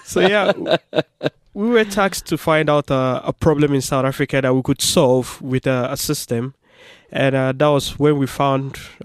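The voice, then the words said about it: South African accent. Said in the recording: “you can hear he's got an accent”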